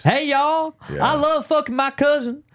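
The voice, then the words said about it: Put-on deep Southern redneck accent. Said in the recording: “Redneck ... makes the return ... The accent's not bad. ... It's not bad. It needs a little tune-up. ... your deep South accent's better than my English accent.”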